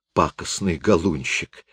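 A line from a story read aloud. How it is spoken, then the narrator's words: Hoarse giggle. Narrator (Russian): хрипло хихикает Лиза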